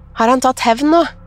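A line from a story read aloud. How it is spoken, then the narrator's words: Calling out. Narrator (Norwegian): ropte jeg ut i huset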